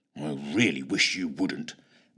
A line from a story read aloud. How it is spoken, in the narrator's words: muttered Fitch, who had pretty much lost the will to live